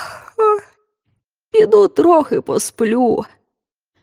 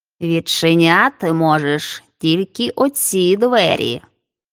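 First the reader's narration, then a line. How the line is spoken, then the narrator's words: Stern command. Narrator (Ukrainian): Відьма-гарбашка суворо наказала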